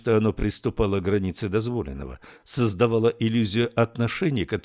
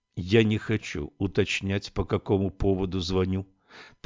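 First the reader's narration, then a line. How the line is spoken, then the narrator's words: Calm reply. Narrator (Russian): также спокойно ответила Камилла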